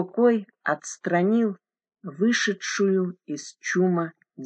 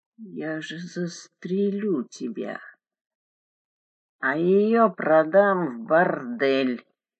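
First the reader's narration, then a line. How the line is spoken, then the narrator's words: Creaky rasp. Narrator (Russian): проскрипел Абадор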